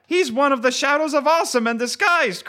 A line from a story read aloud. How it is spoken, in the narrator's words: cried a woman